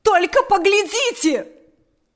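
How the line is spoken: Shouted. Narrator (Russian): закричала она

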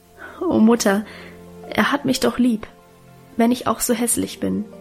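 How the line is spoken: Stammering, laughing and crying. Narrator (German): stammelte lachend und weinend

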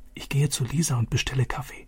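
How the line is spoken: Whispering. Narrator (German): flüsterte Vater zu

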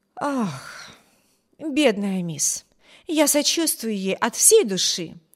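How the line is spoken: Sympathetic sigh. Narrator (Russian): вздохнула Энн

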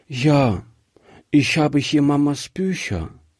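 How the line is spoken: Little girl, sad. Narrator (German): sagte die Kleine traurig

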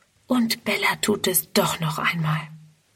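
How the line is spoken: Whispering to herself. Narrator (German): Friedrun flüstert vor sich hin

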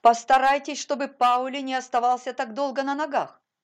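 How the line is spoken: Commanding shout. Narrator (Russian): повелительно крикнула она

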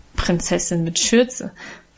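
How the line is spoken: Good-natured laughing tease. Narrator (German): spottete Guste gutmütig lachend

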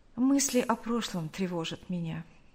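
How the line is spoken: Quiet. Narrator (Russian): Нэнси тихо сказала

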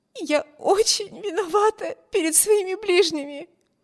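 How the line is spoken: Sobbing. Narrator (Russian): всхлипывала Эми

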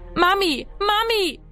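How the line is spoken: Echoing scream. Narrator (German): schrie er, dass seine Stimme im Haus widerhallte

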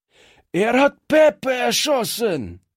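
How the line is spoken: Screamed. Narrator (German): schrie einer der Strolche

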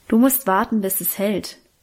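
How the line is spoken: Plain. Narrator (German): sagte Guste

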